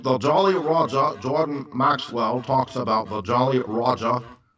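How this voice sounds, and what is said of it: Imitates another person's voice. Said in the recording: “my Jordan Maxwell impersonation”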